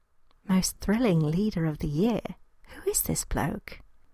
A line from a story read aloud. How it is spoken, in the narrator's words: she asked in an undertone